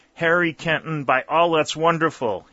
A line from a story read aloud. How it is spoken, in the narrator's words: he exclaimed